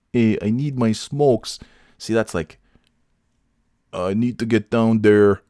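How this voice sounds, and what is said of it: Put-on upstate New York Canadian accent. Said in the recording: “that upstate New York Canadian / brain damage accent. I don't think I didn't do a good enough job. Let me try. ... It's almost like there's a Chicago, New York Canadian brain damage accent there.”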